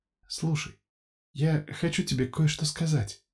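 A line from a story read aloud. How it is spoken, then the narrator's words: Whisper. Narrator (Russian): прошептала Софья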